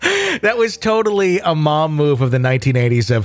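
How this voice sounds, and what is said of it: Usual voice. Nothing is said of it.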